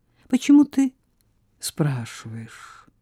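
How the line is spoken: Sad question. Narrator (Russian): печально спросила Мими

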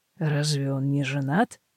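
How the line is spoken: Mumbled. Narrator (Russian): бормочет Деван

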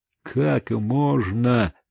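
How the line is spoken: Gloomy speech. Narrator (Russian): так же мрачно сказал Чико

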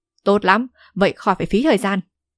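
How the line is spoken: Laughing loudly. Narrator (Vietnamese): Âu Dương Thù cười to nói

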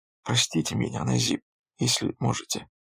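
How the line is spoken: Quiet, blushing girl. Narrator (Russian): Девушка краснея лишь тихо произнесла

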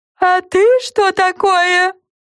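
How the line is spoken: Squealing reply, candy creature. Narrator (Russian): взвизгнул в ответ леденец

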